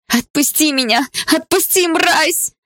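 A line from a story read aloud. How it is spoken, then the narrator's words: Screaming. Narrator (Russian): закричала я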